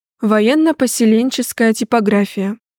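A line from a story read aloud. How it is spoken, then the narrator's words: Sighing husband. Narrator (Russian): вздохнул супруг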